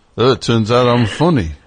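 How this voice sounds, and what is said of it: Poor put-on accent. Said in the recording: “that's a terrible accent”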